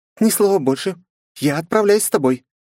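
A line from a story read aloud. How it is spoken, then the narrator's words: Sharp, suddenly energetic. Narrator (Russian): резко вскинулась она, будто не валялась пару секунд назад совсем без сил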